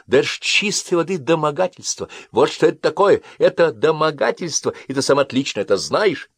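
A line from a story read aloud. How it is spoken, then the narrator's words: Exclamation. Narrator (Russian): Она воскликнула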